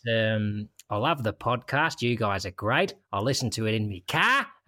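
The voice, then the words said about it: Put-on Australian accent. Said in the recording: “she's from Australia. So it's time to strip on for another accent”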